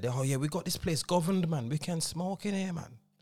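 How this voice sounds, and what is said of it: Put-on Birmingham accent. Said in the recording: “It's a terrible shit Birmingham accent. ... No, that was good though.”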